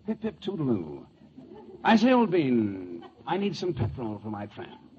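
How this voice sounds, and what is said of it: Put-on English accent, Ronald Colman impression. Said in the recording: “different accents ... look at all the English actors who've made good over here. You know, like Ronald Coleman ... That's Ronald Coleman?”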